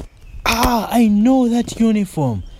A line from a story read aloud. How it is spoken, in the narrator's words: Malindi almost shouted